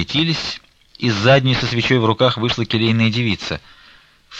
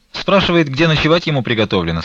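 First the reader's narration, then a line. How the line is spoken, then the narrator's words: Plain. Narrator (Russian): сказала она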